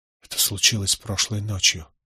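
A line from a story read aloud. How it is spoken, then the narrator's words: Whisper. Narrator (Russian): прошептал я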